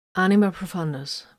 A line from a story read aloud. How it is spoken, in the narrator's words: Vox answered calmly